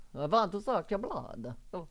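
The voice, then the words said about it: Put-on Romanian vampire accent. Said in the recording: “Romania. Their accent is.”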